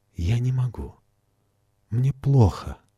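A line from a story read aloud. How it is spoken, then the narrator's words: Trembling voice. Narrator (Russian): дрожащим голосом проговорила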